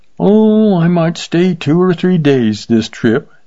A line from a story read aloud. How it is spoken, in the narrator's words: said the kid, yawning